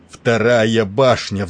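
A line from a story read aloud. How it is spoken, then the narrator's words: Roaring. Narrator (Russian): взревел он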